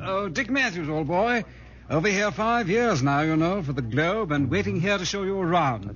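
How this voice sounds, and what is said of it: English accent. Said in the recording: “It's that English accent.”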